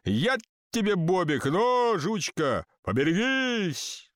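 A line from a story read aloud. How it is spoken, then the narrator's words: Shouted by a crowd. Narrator (Russian): Колоколамцы, не зная, кого послал Бог, на всякий случай крикнули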